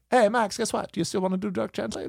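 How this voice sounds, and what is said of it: Poor imitation of posh British accent. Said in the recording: “That's a terrible accent. But he has a wonderful, he has a wonderful posh British accent.”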